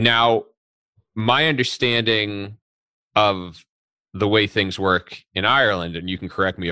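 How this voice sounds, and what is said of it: Usual voice. Nothing is said of it.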